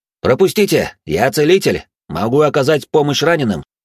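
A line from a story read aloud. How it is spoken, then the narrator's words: Loud shout. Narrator (Russian): громко крикнул я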